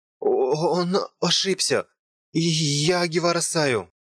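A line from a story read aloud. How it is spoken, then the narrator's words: Trembling voice. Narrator (Russian): Дрожащим голосом сказала я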